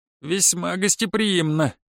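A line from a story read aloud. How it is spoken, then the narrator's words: Snorting. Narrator (Russian): хмыкнул Гонсарет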